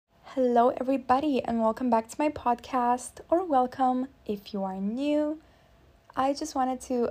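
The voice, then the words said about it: Strained, forced voice, sore throat. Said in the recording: “apologize for my voice if it sounds different, if it cracks during this episode, or if it just sounds really forced ... my voice sounds really forced ... I have a sore throat”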